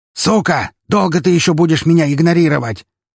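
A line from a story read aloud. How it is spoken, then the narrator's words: Furious roaring yell. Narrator (Russian): ревущим от бешенства голосом заорал Лебедев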